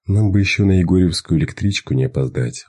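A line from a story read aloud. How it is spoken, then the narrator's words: Sighing. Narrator (Russian): вздохнул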